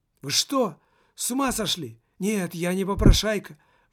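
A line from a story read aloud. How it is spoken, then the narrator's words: Teenager exclaiming. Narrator (Russian): воскликнул подросток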